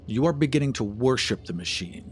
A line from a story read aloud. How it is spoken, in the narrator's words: he said coldly